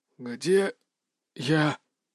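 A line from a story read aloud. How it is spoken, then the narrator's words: Strained, hoarse, unfamiliar voice. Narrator (Russian): Голос звучал чужим, хриплым, словно я не говорил, а выковыривал слова из горла ножом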